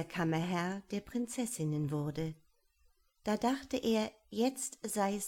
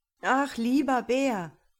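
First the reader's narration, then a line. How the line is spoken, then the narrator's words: Calling out. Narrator (German): rief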